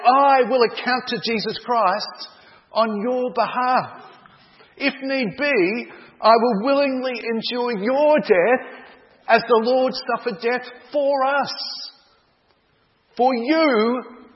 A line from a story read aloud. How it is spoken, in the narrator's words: cried John